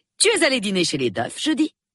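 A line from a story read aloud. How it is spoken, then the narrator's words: Harsh question. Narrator (French): demanda-t-elle durement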